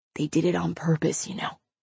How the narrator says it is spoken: whispered back

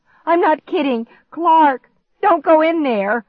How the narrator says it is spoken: shrieked

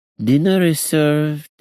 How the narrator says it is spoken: Kaisa's voice purred

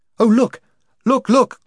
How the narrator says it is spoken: cried Jill

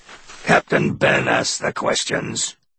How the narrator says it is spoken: he said in that low voice that thundered inside his chest

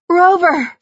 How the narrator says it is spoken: She cried

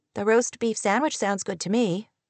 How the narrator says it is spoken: Kate said

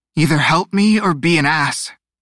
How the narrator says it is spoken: Teo wheezed

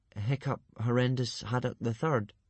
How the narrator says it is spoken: stammered Hiccup

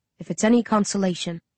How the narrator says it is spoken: he whispers, so that only I can hear

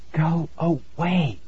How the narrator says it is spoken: I whispered

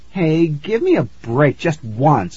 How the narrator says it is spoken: I pleaded

